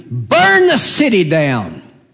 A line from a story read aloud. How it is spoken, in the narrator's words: the Edomites cheered with glee, screamed